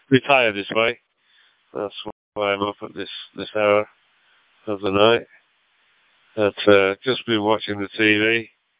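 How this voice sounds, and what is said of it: Greater Manchester English accent. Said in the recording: “accent. ... I'm from the Greater Manchester area, originally.”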